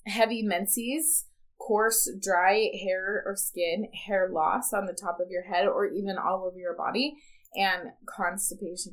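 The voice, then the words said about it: Slightly hoarse voice. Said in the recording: “hoarse voice, which I'm actually kind of sick right now, so my voice is a little hoarse.”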